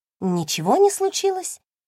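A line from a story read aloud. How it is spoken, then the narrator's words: Squeak. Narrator (Russian): пискнула я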